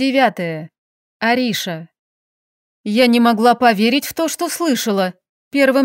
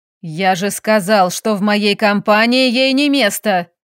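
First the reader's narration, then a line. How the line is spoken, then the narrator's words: Director's bark. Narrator (Russian): рявкнул директор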